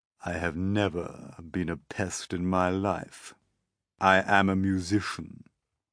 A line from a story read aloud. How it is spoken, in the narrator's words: said, speaking in a deep, slow, scornful voice